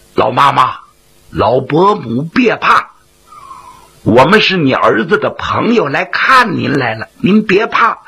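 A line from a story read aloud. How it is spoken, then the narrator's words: Soft, hushed, reassuring. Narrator (Chinese): 为了不叫老太太害怕，云瑞尽量压低了声音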